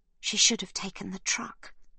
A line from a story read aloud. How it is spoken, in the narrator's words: Livy whispers